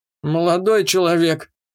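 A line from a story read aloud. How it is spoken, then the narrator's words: Trembling creaky voice. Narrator (Russian): дрожащим голосом проскрипел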